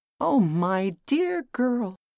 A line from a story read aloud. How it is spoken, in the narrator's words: cried